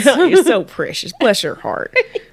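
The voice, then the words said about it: Put-on Southern drawl. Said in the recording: “I feel like I have a nice southern accent right now... Sounding real good. Like I'm from Tennessee or Texas... taking a stab at a southern accent... That drawl”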